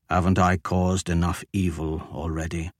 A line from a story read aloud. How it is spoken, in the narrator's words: Ashok asked softly